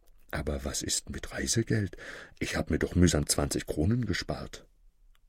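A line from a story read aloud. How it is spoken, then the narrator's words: Little schoolmaster whispering. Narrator (German): flüsterte das Schulmeisterlein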